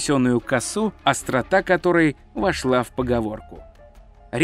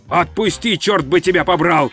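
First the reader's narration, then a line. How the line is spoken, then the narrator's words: Screamed. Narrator (Russian): завопил он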